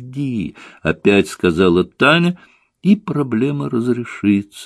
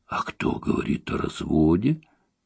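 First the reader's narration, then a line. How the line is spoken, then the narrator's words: Quiet question. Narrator (Russian): тихо спросила Таня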